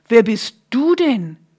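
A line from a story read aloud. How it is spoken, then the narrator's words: Calling out. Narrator (German): rief Isaak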